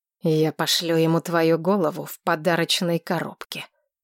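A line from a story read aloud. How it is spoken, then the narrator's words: Growled. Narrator (Russian): тут же рыкнул Вальтер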